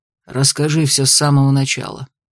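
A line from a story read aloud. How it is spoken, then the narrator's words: Calm request. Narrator (Russian): попросил он уже спокойно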